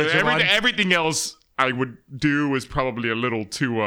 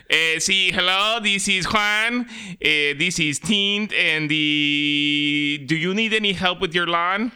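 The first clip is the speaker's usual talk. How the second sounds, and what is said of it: Stereotyped Mexican accent. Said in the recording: “my beaner voice”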